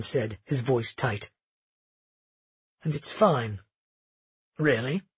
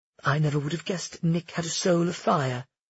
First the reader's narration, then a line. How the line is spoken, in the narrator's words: she said instead, as calmly as possible